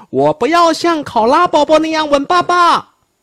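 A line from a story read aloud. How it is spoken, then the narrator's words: Cub shouting. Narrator (Chinese): 熊宝宝叫道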